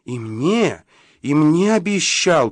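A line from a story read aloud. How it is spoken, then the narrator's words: Loudest possible exclamation. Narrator (Russian): как можно громче воскликнула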